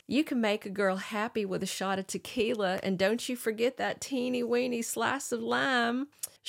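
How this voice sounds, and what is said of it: Southern belle accent, Blanche DuBois. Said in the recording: “she is got a whole new alter we've not met before with a Southern accent ... She sounds very Streetcar Named Desire, Blanche DuBois”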